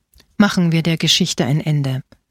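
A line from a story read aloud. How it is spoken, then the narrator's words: Plain. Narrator (German): sagte er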